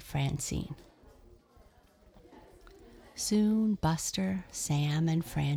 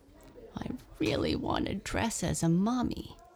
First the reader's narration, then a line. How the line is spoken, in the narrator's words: he grumbled